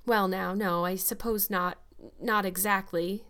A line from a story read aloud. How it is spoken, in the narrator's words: stammered Matthew, uncomfortably driven into a corner